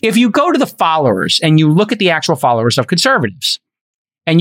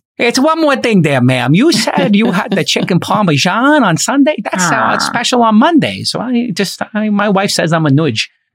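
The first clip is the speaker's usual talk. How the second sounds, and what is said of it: Imitates another person's voice. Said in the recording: “I'm Columbo, you know, like I'm like a dopey detective... my Peter Falk impersonation”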